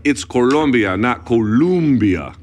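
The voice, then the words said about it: Put-on Spanish accent. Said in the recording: “with a Spanish accent”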